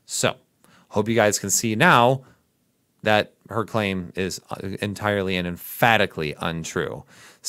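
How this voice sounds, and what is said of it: Midwestern American accent. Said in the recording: “my Midwest accent”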